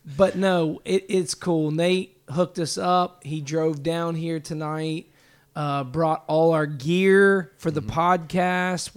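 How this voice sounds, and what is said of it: Hoarse, strained voice. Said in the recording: “I'm losing my voice, like, big time.”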